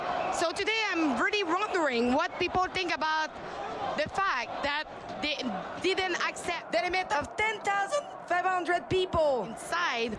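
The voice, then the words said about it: Thick French accent. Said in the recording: “her French accent is really thick ... She should be getting English lessons from Max Bernier. That's how bad it is.”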